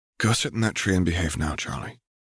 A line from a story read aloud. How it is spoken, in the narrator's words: Alexandra whispered